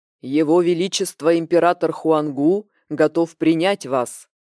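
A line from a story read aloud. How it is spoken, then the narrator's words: Booming bass. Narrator (Russian): Прогремел басом неподвижный охранник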